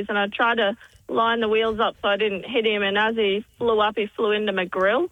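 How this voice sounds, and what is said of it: Noticeable regional accent. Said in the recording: “Yeah, I can tell. You got an accent.”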